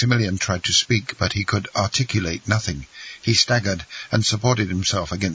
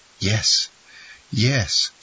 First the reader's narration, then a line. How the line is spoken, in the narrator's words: sighed Noirtier